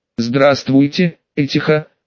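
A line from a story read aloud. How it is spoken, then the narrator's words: Calm and relaxed. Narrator (Russian): спокойно и даже расслабленно сказал Алексей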